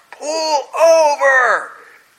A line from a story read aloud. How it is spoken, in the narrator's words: my father pulls up next to me and shouts